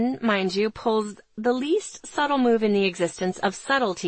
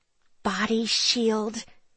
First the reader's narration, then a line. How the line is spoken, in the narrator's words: she hisses from behind gritted teeth